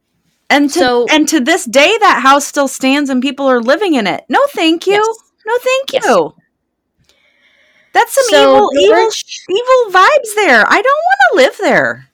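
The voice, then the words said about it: High-pitched agitated voice. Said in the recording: “my voice is getting high. I'm having a moment.”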